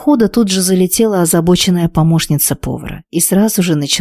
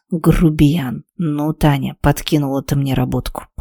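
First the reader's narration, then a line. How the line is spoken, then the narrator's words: Hissed through clenched teeth. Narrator (Russian): Стиснула зубы и прошипела себе под нос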